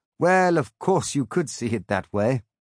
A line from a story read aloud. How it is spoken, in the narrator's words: They laugh, say